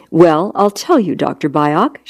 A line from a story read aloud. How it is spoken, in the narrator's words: she answered in the same measured, polite tone